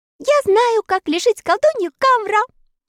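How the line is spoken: Cheerful shout. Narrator (Russian): весело закричала она

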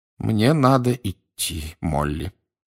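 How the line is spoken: Sighing. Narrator (Russian): еще раз вздохнул мистер Уизли

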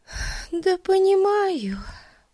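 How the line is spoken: Sigh. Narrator (Russian): вздохнула Бетси

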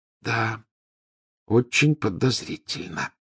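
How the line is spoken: Near whisper. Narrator (Russian): почти прошептала Гермиона

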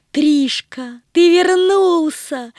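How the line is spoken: Exclaiming. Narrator (Russian): воскликнула Агата

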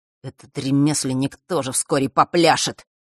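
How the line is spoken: Vengeful muttering. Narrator (Russian): мстительно бормотал Марк

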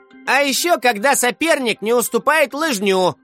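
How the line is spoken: Shouting out. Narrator (Russian): выкрикнул Влад Оленюк

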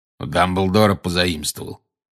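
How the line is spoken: Growl. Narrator (Russian): прорычал Грюм

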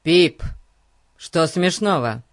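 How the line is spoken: Stern question. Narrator (Russian): строго спросил Фати

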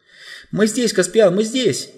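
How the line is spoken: Shouting in unison. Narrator (Russian): закричали Люси и Эдмонд одновременно

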